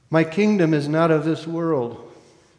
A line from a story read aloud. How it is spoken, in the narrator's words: says the prisoner